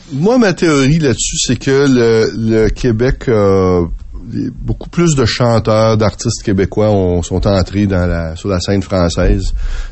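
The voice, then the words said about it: Quebec French accent. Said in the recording (French): “ils ont un accent qui vient de quelque part et leur accent vient du Québec”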